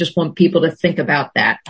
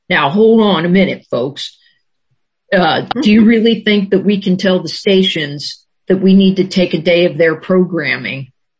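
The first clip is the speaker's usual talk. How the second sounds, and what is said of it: Imitates another person's voice. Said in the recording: “my best Ron Pinchback imitation ... Ron would say that, or something to that effect”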